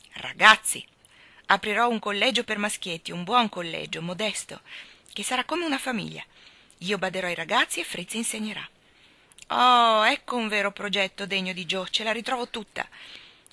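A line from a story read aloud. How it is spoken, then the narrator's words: Exclaimed. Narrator (Italian): esclamò Teddy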